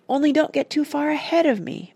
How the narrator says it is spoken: begged Randy

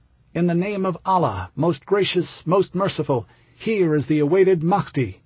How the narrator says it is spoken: Juhayman cried

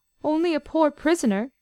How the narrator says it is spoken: came a quavering voice from the depths of the cask

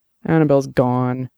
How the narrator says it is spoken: he said miserably

